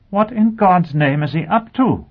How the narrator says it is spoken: Blackrod exclaimed

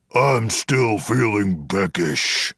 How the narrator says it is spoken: Gorblog grumbled

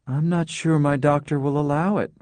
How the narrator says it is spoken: she said feebly

